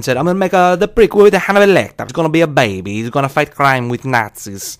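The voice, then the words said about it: Dino De Laurentiis impression. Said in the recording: “my Dino De Laurentiis impression ... I don't think it's horribly far off the mark”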